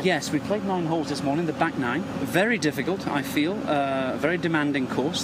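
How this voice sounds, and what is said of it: Speaks with a noticeable accent. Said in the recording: “nice accent. Yeah. I like the accent. ... Yeah, he's got the accent going there.”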